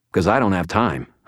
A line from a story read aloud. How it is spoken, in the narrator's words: I said